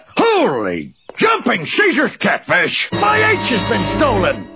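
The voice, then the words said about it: Yelling. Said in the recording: “stop yelling”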